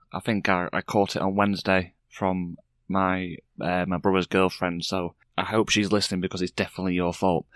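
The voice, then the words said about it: Voice affected by a cold. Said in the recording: “I've got a bad cold.”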